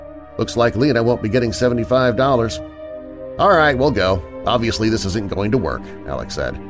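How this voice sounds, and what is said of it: Usual voice. Nothing is said of it.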